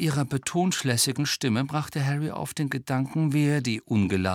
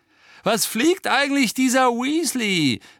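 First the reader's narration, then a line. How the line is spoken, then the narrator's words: Scornful call. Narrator (German): rief Malfoy verächtlich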